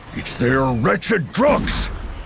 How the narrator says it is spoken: Merrimus snapped

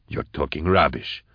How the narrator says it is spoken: growled Vorier

